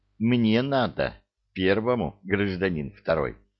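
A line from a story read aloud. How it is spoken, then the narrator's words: Gentle. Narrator (Russian): ласково сказал взводный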